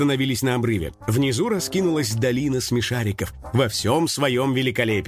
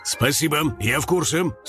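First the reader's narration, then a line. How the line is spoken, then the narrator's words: Angry interruption. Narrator (Russian): сердито перебил его Карыч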